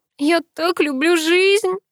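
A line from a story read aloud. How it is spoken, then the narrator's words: Tearful drawl. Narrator (Russian): протянула я сквозь слезы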